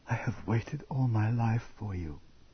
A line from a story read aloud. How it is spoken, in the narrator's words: she whispered into his mouth